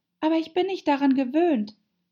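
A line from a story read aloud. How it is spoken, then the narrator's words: Pitiful pleading. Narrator (German): flehte die arme Alice in kläglichem Ton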